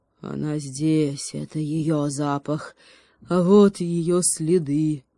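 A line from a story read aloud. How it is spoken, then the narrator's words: Growling upward. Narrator (Russian): прорычал в небо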